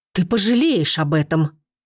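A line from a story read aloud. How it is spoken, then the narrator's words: Strained forced words. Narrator (Russian): Наконец выдавила она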